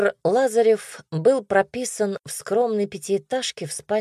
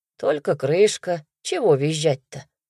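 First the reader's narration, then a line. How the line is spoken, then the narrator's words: Calm. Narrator (Russian): спокойно сказал Игорь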